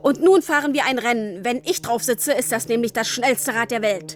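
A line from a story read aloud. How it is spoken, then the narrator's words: Calling out. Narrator (German): rief er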